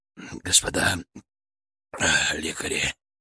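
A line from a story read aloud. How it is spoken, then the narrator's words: Rasped. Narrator (Russian): прохрипел Обухов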